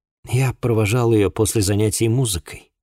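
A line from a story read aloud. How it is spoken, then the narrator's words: Sigh. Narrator (Russian): вздохнул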